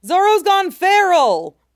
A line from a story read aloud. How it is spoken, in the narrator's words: Usopp shouts from the crow's nest